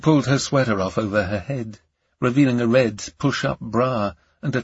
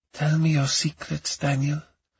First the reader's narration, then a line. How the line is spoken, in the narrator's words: she whispered into my mouth